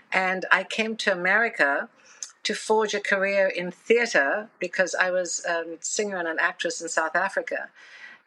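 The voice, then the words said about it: South African accent. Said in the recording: “I love your accent too... as a South African”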